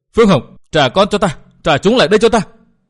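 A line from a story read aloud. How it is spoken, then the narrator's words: Piteous repeated wailing. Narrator (Vietnamese): Lưu phu nhân luôn miệng kêu lên thảm thiết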